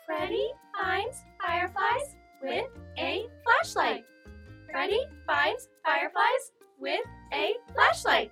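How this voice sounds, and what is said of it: Tiny high-pitched firefly voice. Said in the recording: “in a tiny firefly voice”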